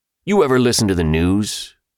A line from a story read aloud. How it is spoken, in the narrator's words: Ben said, his tone almost accusing